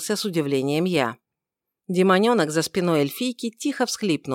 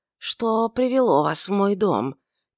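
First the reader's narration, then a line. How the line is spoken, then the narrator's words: Quiet question. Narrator (Russian): тихо поинтересовалась она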